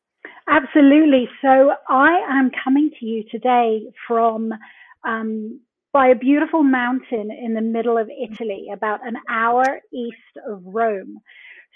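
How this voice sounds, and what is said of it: British accent. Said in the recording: “your lovely British accent”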